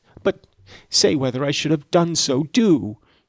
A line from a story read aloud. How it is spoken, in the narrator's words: she exclaimed, in an irritated tone